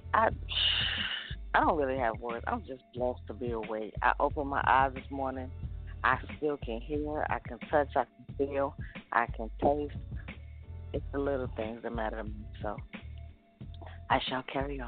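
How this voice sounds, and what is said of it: Raspy voice. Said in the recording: “your voice got raspy”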